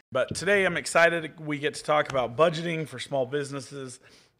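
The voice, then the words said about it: Voice not fully recovered. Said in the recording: “my voice is still working its way back.”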